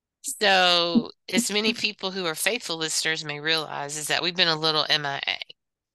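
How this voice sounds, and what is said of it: Sick-sounding voice. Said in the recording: “You can probably tell by my voice ... we both have been a little sick”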